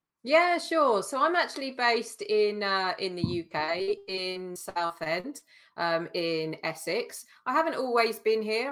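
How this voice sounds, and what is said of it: Non-American English accent. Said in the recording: “there's no American accent there”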